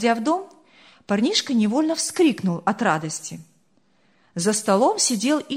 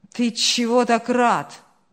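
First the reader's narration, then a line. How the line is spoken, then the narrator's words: Muttered. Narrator (Russian): пробурчал Ильяс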